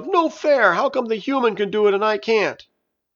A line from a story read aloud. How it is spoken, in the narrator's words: Juice yelled